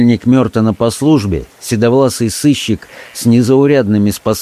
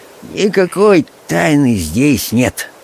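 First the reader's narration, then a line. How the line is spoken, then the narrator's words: Sleepy reply. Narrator (Russian): отозвался Гилдер, сонно щурясь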